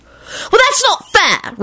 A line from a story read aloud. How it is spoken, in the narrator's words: Rosie yelled